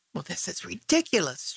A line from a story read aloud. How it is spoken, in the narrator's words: Chi Meng said in a low voice